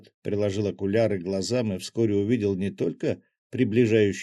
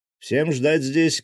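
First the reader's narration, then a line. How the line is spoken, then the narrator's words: Guard shouting. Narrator (Russian): крикнул главный гвардеец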